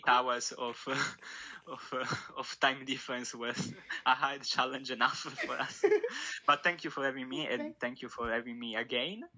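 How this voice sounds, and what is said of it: Italian-accented English. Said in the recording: “me talking my Italian accent ... it's an amazing accent”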